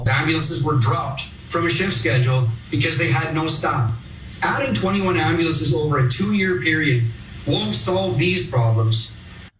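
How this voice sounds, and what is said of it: Subtle Canadian accent. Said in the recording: “that's a good Canadian accent. It's a little bit subtle and then gets a little more pronounced ... the way that he says that and he does his A's”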